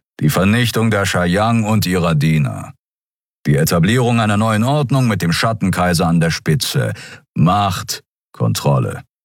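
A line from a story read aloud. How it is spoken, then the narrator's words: Growl. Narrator (German): knurrte Kero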